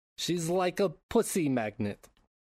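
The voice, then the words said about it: Poor imitation of a comedic character's accent. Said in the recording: “That is not a great Borat impression”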